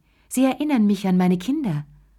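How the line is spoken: Sighed. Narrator (German): seufzte sie

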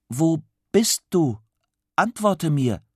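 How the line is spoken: Calling out. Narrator (German): Tim ruft

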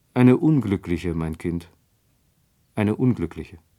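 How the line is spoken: Sighing reply. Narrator (German): antwortete das Fräulein Brahe mit einem Seufzer, der mir komisch vorkam

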